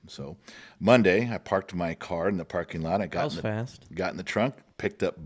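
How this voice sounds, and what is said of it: Usual voice. Nothing is said of it.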